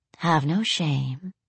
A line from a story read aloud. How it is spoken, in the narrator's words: she said softly